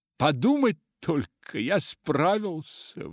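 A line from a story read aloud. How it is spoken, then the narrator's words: Exclaiming. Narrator (Russian): воскликнул макиска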